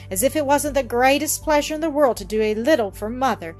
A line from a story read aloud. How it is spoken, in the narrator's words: exclaimed the latter, half indignantly